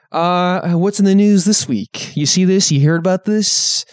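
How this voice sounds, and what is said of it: Johnny Carson impression sounding like Jack Nicholson. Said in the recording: “Is that your Jack Nicholson doing an a Jack Nicholson impression of an impression of Jay Leno? ... me mixing up Jay Leno and Johnny Carson ... Your Johnny Carson sounds a lot like Jack Nicholson.”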